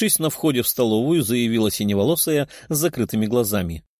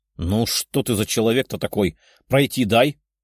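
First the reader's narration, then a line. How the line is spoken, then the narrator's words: Irritated grumble. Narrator (Russian): проворчала Даша, едва сдерживаясь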